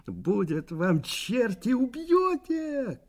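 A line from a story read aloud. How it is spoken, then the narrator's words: Shouting. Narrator (Russian): кричал Валерка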